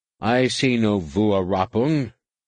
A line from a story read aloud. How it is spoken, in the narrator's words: the commander said stiffly